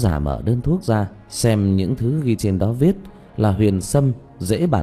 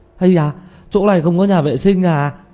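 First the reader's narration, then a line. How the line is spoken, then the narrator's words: Sudden pained cry. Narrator (Vietnamese): Tiểu Mã chợt ôm bụng kêu lên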